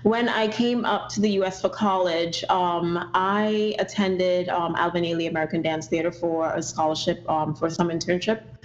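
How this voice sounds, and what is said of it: Trinidadian accent. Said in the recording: “If you do detect an accent, I'm originally from Trinidad and Tobago”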